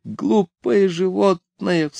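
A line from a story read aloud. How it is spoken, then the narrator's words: Sobbing. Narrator (Russian): всхлипывая, сказала она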